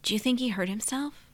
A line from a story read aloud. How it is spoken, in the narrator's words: Kelly whispered